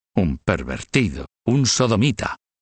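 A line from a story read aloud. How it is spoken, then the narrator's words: Grunting. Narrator (Spanish): gruñir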